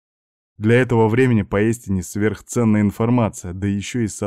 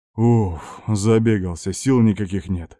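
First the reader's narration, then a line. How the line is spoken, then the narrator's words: Tired exhale. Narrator (Russian): выдохнул капитан госбезопасности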